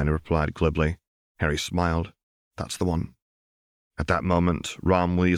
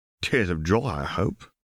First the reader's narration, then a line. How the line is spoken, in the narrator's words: Ron said with a chuckle